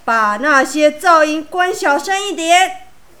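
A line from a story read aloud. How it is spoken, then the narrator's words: Exasperated loud roar. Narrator (Chinese): 爸爸受不了的时候，就会大声吼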